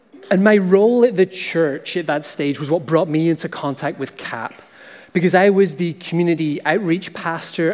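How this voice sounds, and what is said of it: Northern Irish accent, Scottish lilt. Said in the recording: “my accent isn't from Ontario. I grew up on the north of Ireland, so that also brings a little bit of a Scottish lilt, so if you'd peg me as Scottish, it's okay”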